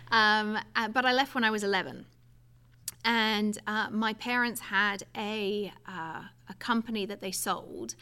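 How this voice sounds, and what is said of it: English accent. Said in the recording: “So I was born and raised in England. ... Yes, I can tell. ... Yeah, the accent gives it away.”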